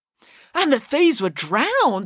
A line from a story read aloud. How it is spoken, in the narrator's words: exclaimed Michael